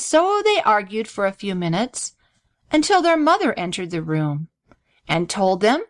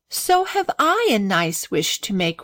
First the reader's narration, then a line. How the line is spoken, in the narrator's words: replied Grace with a sigh